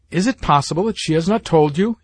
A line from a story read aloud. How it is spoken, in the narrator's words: he exclaimed